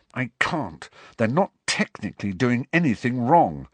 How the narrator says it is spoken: said through gritted teeth

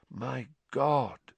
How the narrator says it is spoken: said Lupin softly

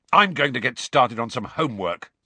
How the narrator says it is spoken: said Ron angrily

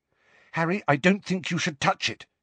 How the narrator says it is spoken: said Hermione sharply

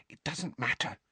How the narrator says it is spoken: Hermione whispered

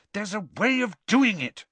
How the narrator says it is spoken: Hermione said crossly

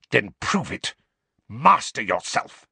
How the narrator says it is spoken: spat Snape

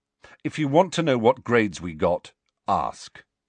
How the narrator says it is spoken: said Ron sharply

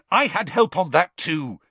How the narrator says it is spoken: Harry snapped

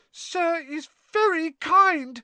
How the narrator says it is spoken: he squeaked, his eyes brimming with tears again

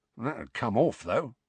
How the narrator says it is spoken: muttered Mundungus

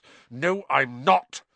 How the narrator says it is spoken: said Harry angrily

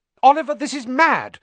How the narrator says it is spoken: said Alicia Spinett angrily

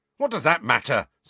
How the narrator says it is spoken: said George hotly

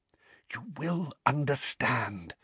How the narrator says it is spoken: whispered Dumbledore

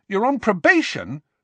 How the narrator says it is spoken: said Ron very loudly

